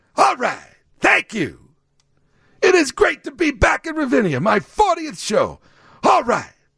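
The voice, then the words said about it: Imitates another person's voice. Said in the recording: “that is my impersonation of Alec Baldwin doing Tony Bennett. It is not Tony Bennett.”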